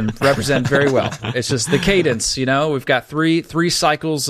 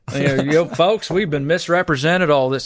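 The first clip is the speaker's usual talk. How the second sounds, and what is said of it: Put-on Southern drawl. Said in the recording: “Get my Southern drawl on it.”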